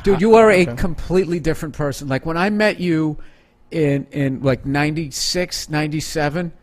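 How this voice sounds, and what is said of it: East Coast American accent. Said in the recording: “I'm always going to sound like I'm in a bad mood because I have the East Coast accent.”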